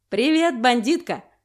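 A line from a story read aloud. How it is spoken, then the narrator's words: Joyful yell over phone. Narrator (Russian): радостно вопит Малеев в трубку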